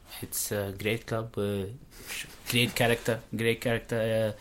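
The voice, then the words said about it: Impression of Brendan Rodgers. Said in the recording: “your little Rodgers impersonation”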